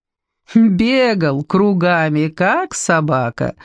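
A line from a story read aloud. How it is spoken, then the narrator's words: Laughing. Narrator (Russian): засмеялась Ма Поцине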